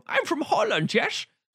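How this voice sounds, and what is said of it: Poor put-on Dutch accent. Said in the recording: “what accents can you do? ... I can do a Dutch accent, yes. And the thing is, he can't.”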